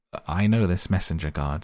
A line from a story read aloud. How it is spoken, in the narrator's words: said Mr